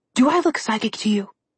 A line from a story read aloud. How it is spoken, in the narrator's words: Alex whispered back at him